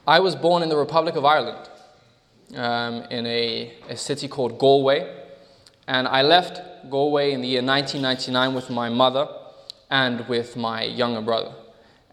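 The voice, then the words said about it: Slightly jumbled-up mixed accent. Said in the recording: “the accent is slightly jumbled up”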